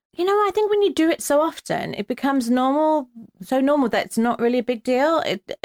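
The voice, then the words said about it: British accent. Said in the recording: “in case people can't tell from your accent, you are also a Brit in LA”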